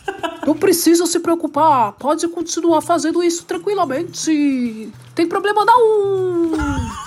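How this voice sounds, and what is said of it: Imitates another person's voice. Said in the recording (Portuguese): “melhor que eu imitando Gugu”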